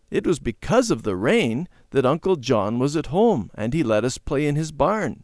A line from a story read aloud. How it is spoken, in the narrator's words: Randy said